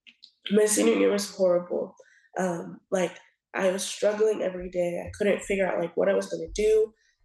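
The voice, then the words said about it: Hoarse, fading voice. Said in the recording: “I'm losing my voice a little bit.”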